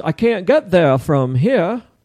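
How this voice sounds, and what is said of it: Put-on Maine accent. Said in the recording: “That's my Maine approach. That's my Maine attempt. ... That's a Maine accent? ... That sounds like somebody from Cape Cod or something. ... that's Maine for sure. That's my Maine impression.”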